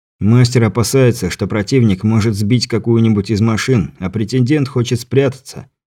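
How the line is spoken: Plain. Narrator (Russian): ответил Андрей

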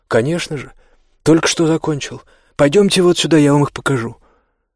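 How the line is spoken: Father's cheerful friendly exclamation. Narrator (Russian): отец в своей обычной дружелюбной и жизнерадостной манере воскликнул

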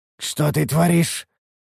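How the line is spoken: Hoarse, coughing blood. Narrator (Russian): прохрипел я, кашлянув кровью

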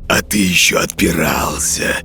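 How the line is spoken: Ghoul's bared-teeth hiss. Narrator (Russian): скаля зубы прошипел упырь

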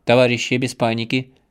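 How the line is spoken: Commanding officer's announcement. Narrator (Russian): командным голосом объявил офицер

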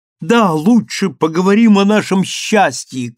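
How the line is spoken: Shout. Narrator (Russian): крикнул он

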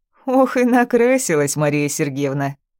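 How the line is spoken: Older woman laughing. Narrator (Russian): смеялась полная акушерка в возрасте

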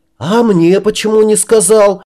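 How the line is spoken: Yelling. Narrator (Russian): заорал я

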